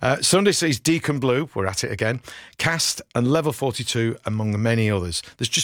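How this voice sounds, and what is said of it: Usual voice. Nothing is said of it.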